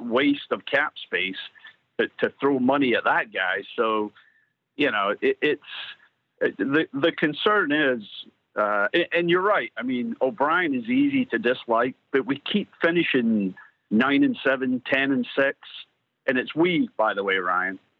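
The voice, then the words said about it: Slight Scottish accent. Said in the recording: “I'm detecting a little accent, almost like Scottish or Irish ... It's very clearly Scottish.”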